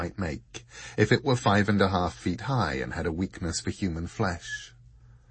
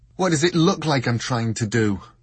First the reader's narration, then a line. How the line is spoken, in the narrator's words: She snapped back, an unfamiliar edge to her voice